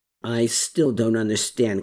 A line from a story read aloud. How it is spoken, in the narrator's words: Klaus muttered